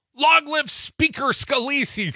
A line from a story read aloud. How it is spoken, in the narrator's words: he cried